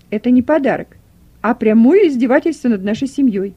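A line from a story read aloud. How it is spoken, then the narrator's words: Loud indignant exclamation. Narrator (Russian): громко воскликнула хозяйка дома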